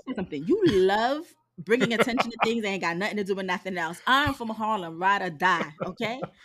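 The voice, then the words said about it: New York accent. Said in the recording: “This is a New York accent through and through.”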